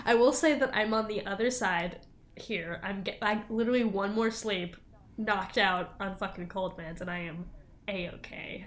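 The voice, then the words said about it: Congested, clogged-up voice. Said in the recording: “I'm all clogged, so my voice sounds bad ... my voice, not great, because there's not a lot of airflow going on here”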